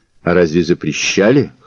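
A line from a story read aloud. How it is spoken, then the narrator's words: Smirking snort. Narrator (Russian): хмыкнул Мазур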